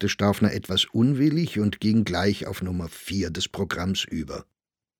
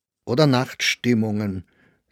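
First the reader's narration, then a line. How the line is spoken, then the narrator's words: Strong, emphatic voice. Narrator (German): setzte Friedinger mit so starker Stimme hinzu, als wäre dieser Spaß von höchster Wichtigkeit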